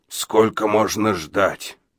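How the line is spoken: Hoarse question. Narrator (Russian): хрипло спросил Абадия

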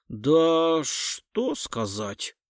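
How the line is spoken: Woman drawling. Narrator (Russian): протянула женщина

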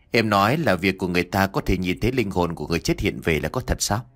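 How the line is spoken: Soft question. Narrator (Vietnamese): Nhất khẽ hỏi

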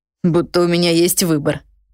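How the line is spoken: Snorted. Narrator (Russian): фыркнул чародей

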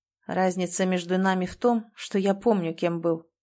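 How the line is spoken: Plain. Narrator (Russian): ответил он

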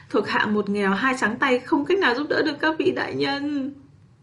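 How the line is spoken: Sudden whimpering, crying. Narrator (Vietnamese): bỗng mếu máo khóc lóc nói

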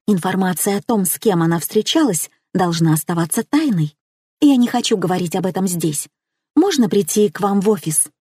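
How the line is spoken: Intriguing whispered reply. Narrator (Russian): Нагнетая интригу, я зашептала в ответ

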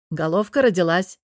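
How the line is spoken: Midwife announcing. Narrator (Russian): сообщила акушерка

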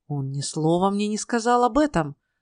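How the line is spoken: Exclaimed. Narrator (Russian): воскликнул Ной

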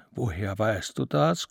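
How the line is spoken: Gasping. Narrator (German): keuchte Lichtendorf

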